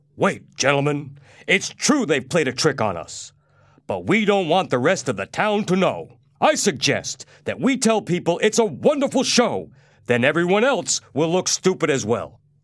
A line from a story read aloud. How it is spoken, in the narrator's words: a big man stood up and shouted at the other men in the audience